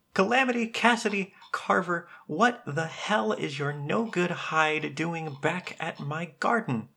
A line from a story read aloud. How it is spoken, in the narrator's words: a short man shouting at the top of his lungs